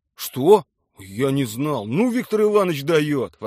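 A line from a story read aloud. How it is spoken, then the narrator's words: Exclaiming. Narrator (Russian): воскликнул Милицкий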